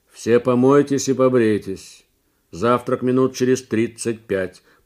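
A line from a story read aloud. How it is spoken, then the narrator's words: Distant booming voice. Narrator (Russian): прогудел откуда-то голос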